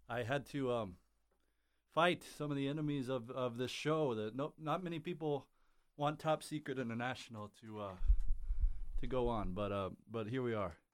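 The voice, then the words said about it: Out of breath, breathless speech. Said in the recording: “I'm sorry, I'm out of breath.”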